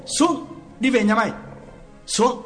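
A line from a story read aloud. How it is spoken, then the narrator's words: Shouted command. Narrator (Vietnamese): Quán quát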